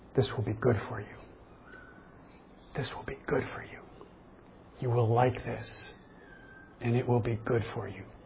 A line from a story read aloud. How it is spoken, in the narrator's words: Sneaking, slithering snake tells its lies, whispering